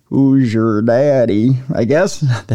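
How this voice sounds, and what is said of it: Bad Jack Nicholson impression. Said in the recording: “That sounded weird. That was a very bad Jack Nicholson impression”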